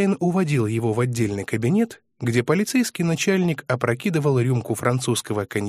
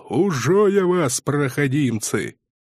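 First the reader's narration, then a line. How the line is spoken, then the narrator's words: Growling. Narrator (Russian): рычал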